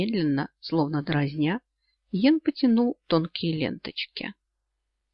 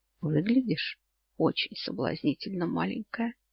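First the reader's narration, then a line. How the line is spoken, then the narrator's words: Quiet, pleased male voice. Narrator (Russian): Он негромко и с явным удовольствием произнес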